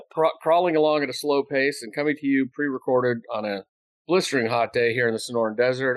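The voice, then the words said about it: Slightly stuffy, congested voice. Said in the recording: “I sound a little stuffy”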